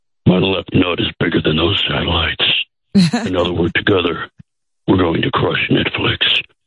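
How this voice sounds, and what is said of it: Creepy put-on voice. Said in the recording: “What a creepy voice.”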